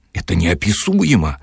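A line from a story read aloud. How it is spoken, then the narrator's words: Exclaimed. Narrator (Russian): воскликнул юноша, оказавшийся женщиной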